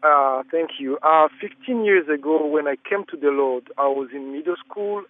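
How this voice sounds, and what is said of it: African accent. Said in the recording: “I am African, so I hope you bear with my accent.”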